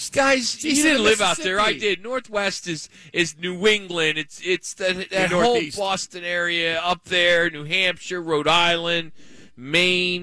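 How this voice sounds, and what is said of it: Regional accent becomes noticeable. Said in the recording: “The accent kicks in when he starts talking about that.”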